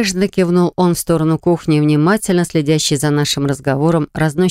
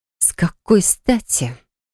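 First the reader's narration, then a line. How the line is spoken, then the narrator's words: Lowered-voice hiss. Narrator (Russian): понизив голос прошипела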